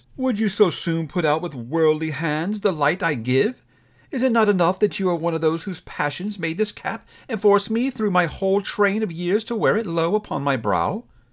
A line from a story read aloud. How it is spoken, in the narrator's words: Scrooge reverently exclaimed